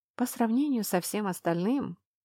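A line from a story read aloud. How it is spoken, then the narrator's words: Sighing. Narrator (Russian): вздохнула я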